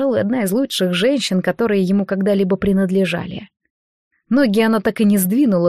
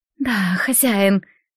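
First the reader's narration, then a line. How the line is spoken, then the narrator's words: Breathy exhale. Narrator (Russian): выдохнула его женщина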